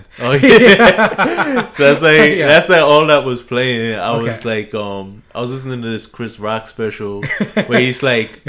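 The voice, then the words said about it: West Indian-influenced accent. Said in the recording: “I grew up in like a really West Indian area... that kind of tells with your accent”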